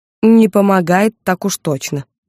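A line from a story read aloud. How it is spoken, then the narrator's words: Grumbled mutter. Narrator (Russian): буркнула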